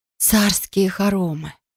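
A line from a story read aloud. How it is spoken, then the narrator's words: Stunned breathless exclamation. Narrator (Russian): выдохнула я ошеломленно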